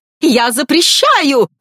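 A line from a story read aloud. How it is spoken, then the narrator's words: Shrill squeal. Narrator (Russian): взвизгнула леди Тремейн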